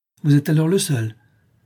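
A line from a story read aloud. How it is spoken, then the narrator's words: Captain exclaiming. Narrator (French): s'écria le capitaine Servin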